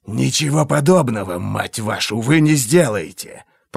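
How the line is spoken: Hiss. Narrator (Russian): прошипел Глок-то

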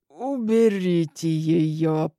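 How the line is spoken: Muttered through swollen mouth. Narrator (Russian): процедил опухшим ртом Алик

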